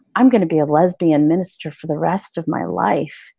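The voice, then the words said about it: Very low, downcast voice. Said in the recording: “like in this very down voice”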